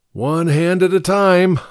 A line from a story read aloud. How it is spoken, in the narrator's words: laughed bitterly